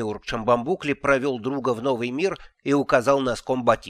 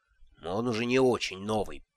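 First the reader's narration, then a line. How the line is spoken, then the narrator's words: Grumbling. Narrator (Russian): проворчал Шамбамбукли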